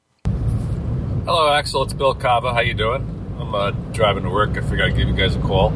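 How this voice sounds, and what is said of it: New Jersey accent. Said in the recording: “he's got the Jersey accent just like me”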